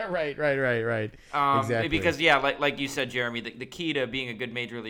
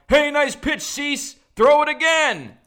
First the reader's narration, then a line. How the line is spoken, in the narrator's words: he yelled